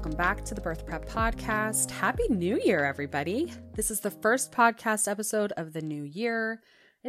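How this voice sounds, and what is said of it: Congested, sick-sounding voice. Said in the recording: “we've been sick literally since the day after Christmas ... You could probably still hear it in my voice. I'm still blowing my nose.”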